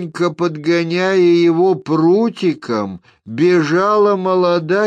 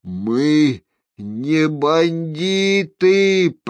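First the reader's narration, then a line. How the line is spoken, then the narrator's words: Strained, squeezed moan. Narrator (Russian): простонал сверху Геральт, едва выжимая голос из стиснутой ветками груди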